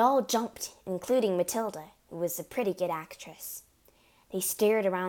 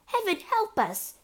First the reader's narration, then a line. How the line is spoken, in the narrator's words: cried the mother